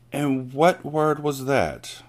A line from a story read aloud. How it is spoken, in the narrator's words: the Trunchbull asked softly